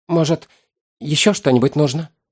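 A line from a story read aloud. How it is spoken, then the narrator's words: Timid innkeeper's inquiry. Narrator (Russian): Как-то робко осведомился трактирщик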